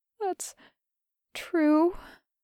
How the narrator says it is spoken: Alana sighs miserably

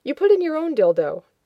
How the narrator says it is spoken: Adam said cheerfully

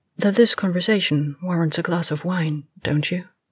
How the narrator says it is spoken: Miranda said quietly

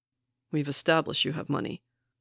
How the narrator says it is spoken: Barnes says dryly

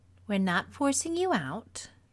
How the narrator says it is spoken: Gamora said calmly

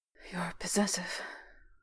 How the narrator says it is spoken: Will murmured into silver-streaked hair

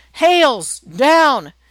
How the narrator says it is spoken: shouts

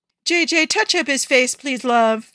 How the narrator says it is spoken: she shouts

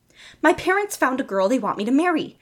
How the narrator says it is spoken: Steve blurted out, half hysterical

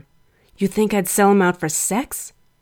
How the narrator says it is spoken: He hissed

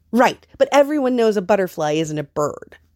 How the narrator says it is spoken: Adrian scoffed

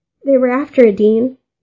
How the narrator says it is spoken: screeched, and the sounds of tears already strangling his voice

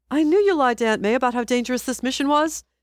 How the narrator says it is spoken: Peter shouted

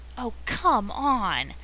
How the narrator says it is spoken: howls Jim, or rather, he says calmly

